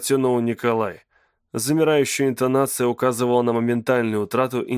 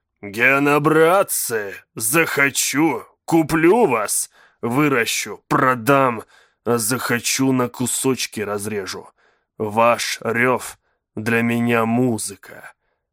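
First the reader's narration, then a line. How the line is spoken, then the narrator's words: Growl. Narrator (Russian): прорычал механист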